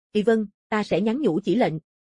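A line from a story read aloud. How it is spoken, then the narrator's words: Hesitant, trembling lips. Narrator (Vietnamese): Nghiêm Nhẫn hai mảnh môi bi vi run run, rất rõ ràng một trận do dự sau, nói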